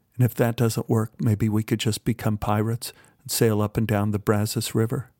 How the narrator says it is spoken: Beth looked at me sadly and smiled and said

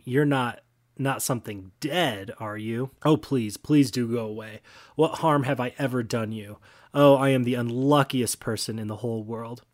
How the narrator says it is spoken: He said almost in a scream

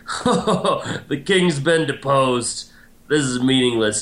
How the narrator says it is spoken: laughs, and he's like

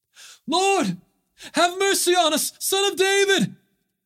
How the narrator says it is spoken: they cried out all the more

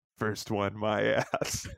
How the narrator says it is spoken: Sheridan muttering

